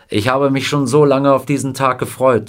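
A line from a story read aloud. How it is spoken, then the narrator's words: Plain. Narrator (German): sagte er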